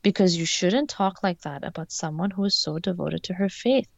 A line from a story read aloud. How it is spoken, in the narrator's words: Egan said in a calm, soothing voice